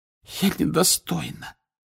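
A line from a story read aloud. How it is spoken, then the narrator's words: Hoarse voice. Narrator (Russian): хриплым голосом проговорила Фляр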